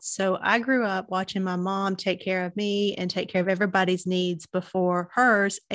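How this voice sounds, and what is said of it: Southern US accent. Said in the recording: “you can tell by my accent, I'm a Southern girl. So I'm in Chattanooga, Tennessee.”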